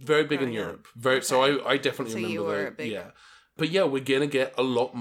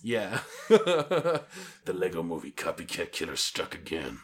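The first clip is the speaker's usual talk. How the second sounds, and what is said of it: Odd put-on accent, stuffy voice. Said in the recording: “I'm not sure what accent that was, but I love it... You sound like if I gave Jim Varney the flu.”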